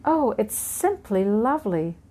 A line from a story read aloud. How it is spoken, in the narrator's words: Cinderella exclaimed